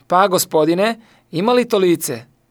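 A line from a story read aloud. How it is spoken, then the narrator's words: Shouted. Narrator (Croatian): Florian viknuo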